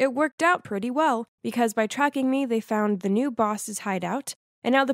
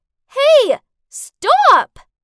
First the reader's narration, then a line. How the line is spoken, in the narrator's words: I shouted after him